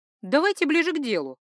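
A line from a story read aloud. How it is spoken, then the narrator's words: Sharp, impatient. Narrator (Russian): резко промолвила, поскольку хотела, чтобы он поскорее убрался из моего дома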